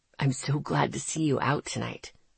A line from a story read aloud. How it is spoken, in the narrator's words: he whispered to me